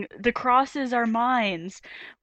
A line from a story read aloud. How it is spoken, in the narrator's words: Van Damme is yelling